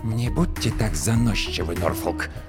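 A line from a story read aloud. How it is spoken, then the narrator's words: Hiss. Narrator (Russian): прошипел клиент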